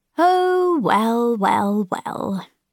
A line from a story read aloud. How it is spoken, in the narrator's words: the eunuch sighed